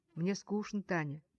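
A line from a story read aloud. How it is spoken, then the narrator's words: Quiet reply. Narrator (Russian): тихо отвечал он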